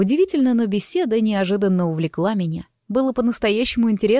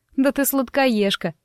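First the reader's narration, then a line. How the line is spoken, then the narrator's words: Laughing. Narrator (Russian): рассмеялась я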